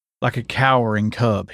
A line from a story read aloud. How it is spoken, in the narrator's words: he sputtered out